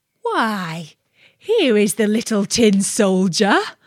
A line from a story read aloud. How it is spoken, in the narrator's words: a voice exclaimed